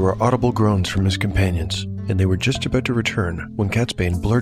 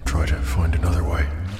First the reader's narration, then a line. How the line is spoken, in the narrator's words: muttered